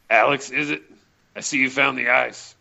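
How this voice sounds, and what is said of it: Put-on character voice. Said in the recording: “do my Morrison voice”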